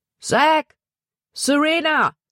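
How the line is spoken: Calling out. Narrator (German): rief er

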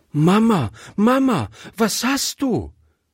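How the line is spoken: Called out. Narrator (German): rief Gretchen

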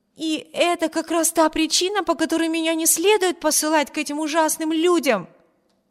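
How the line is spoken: Exclamation. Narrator (Russian): воскликнула Эми

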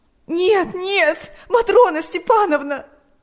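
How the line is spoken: Sobbing. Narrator (Russian): рыдала Ирина

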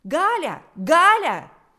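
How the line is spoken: Shrill scream. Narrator (Russian): закричал пронзительный голос

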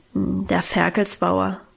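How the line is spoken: Embarrassed mumble. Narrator (German): brummte Guste noch verlegener, mit gesenktem Kopf

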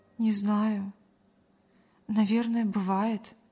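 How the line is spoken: Sighed. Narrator (Russian): вздохнула

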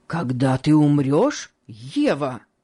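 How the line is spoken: Deeply agitated exclamation. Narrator (Russian): воскликнул Сен-Клэр с глубоким волнением

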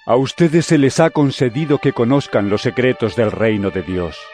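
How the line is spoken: Plain. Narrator (Spanish): les contestó

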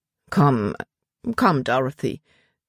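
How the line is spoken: Embarrassed murmur. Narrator (German): murmelte er, als wären ihm ihre Tränen peinlich

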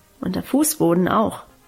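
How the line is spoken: Murmured. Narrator (German): murmelte sie

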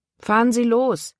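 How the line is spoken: Calling out to driver. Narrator (German): rief dem Fahrer zu

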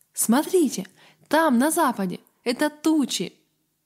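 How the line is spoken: Exclaimed. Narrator (Russian): Авари Гаррет воскликнул

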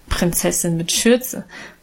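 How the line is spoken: Good-natured laughing mockery. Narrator (German): spottete Guste gutmütig lachend

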